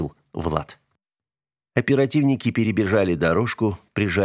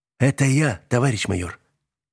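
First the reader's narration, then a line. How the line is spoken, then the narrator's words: Hoarse, hidden nervousness. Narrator (Russian): хрипло проговорил оперативник, однако он все же волновался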